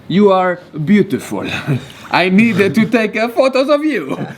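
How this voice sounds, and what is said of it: Put-on Spanish accent sounding Italian. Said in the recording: “Why does every time I want to make a Spanish accent sound like Italian?”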